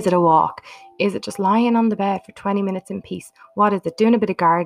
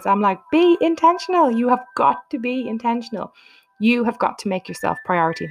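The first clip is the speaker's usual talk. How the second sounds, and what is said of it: Passionate, emphatic delivery. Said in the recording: “you can hear the passion in my voice.”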